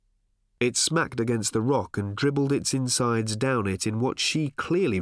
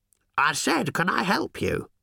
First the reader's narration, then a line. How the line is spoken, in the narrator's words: she said in a thin, scratchy voice that he could only just hear